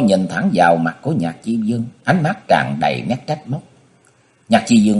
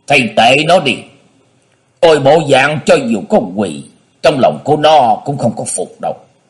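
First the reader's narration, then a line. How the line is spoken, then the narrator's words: Cold pronouncement. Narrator (Vietnamese): Dân Hư lạnh lùng phán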